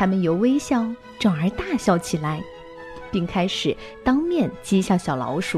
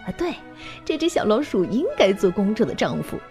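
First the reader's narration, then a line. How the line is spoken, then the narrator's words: Laughing. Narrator (Chinese): 宾客们 笑着说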